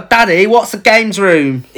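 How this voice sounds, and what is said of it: Child's voice, thick Cockney accent. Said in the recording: “the kid's voice ... badly dubbed ... proper thick Cockney accent”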